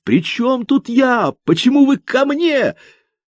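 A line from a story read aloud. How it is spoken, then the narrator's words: Almost shouting, losing caution. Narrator (Russian): от того, что они молча разглядывали его, он почти закричал, теряя осторожность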